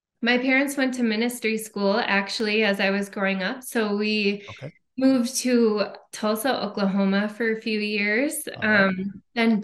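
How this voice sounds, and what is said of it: Minnesota accent. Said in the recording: “oh, there's the accent. ... I heard it right there. Minnesota. ... Oh, there it is, the accent. ... you'll pick up on it.”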